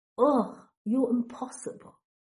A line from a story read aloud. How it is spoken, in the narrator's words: Draco groans